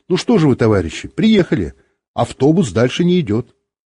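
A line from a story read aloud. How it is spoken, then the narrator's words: Cheerful. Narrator (Russian): Бортпроводница весело сказала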